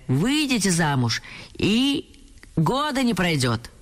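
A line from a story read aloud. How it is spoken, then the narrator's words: Shrill voice. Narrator (Russian): неслось визгливое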